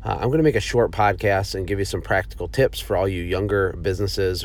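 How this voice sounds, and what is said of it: Sick, off-sounding voice. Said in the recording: “My voice might sound a little weird because I am sick.”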